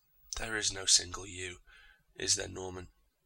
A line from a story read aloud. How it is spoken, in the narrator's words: He sighed